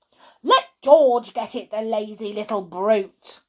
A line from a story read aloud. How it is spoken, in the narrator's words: Grandma shouted